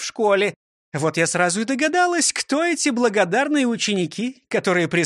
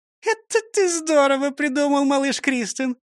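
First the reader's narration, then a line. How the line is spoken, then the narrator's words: Laughing. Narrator (Russian): рассмеялась Фрёкинсталь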